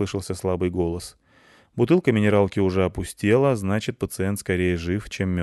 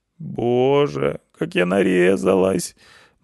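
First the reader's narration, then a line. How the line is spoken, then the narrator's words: Girl moaning. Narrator (Russian): простонала девушка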